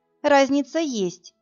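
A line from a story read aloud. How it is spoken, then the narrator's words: Timid objection. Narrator (Russian): робко возразила я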